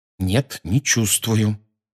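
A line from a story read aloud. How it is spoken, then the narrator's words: Through gritted teeth. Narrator (Russian): сказал Гарри сквозь зубы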